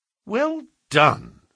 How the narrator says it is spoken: said Holmes, in an encouraging voice

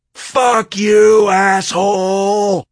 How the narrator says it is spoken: She screamed out her window

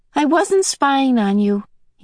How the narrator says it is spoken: he said quickly

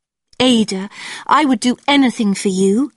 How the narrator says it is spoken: cried

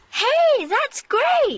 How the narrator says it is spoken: shouts Stacy

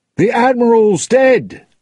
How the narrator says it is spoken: one of the Dutchman's sailors shouted

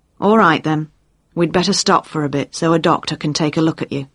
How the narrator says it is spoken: she said

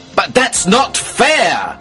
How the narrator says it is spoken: I shouted

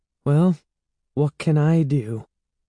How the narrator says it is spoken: She said hesitantly

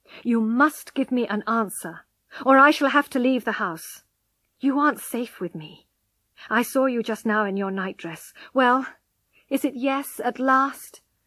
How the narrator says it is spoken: he said firmly

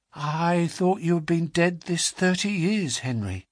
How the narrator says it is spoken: said, in a shaking voice

